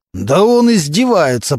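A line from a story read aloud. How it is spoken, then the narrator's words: Growling. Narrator (Russian): продолжал рычать Мантуленко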